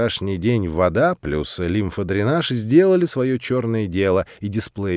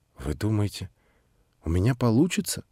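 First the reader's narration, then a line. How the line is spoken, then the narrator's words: Timid question. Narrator (Russian): спросила она робко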